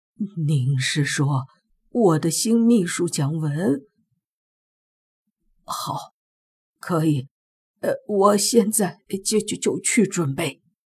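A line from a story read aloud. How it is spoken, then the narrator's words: Gasping, trembling voice. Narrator (Chinese): 我听见林社长倒吸一口冷气，声音颤抖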